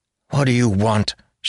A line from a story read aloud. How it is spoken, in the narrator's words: she snapped